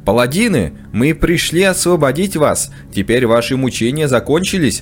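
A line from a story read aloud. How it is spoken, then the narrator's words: Exclaiming. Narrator (Russian): воскликнул Альберон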